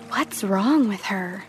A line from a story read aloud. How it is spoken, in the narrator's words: She heard them whispering